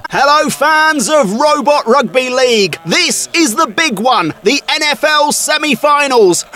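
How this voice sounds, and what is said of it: Typical British accent. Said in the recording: “Commentary in a very, like, typical British accent.”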